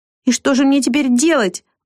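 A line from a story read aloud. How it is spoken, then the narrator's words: Near tears exclamation. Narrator (Russian): воскликнула Вика, едва сдерживая слезы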